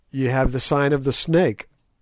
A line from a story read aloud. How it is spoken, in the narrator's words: I answered